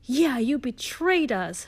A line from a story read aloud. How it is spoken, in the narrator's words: shooted Vampire angrily